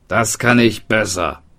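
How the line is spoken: Blacksmith calling out. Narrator (German): rief der Hufschmied

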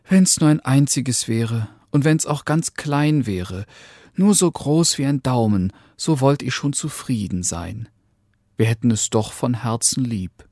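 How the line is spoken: Woman sighing answer. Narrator (German): antwortete die Frau und seufzte

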